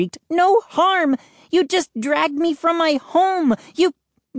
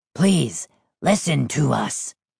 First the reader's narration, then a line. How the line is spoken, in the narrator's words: Hap rasped